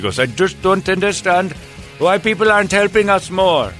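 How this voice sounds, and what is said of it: Imitated Indian accent. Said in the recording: “hate to do the accent because I know how offensive that could be”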